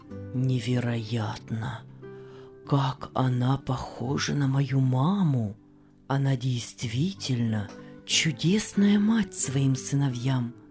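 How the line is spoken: Amazed murmur. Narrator (Russian): пробормотал Иосиф

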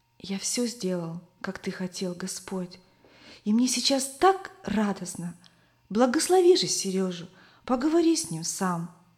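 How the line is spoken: Boy's whispered prayer. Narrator (Russian): мальчик шептал Иисусу

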